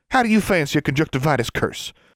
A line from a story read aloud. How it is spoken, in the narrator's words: Forbearance snapped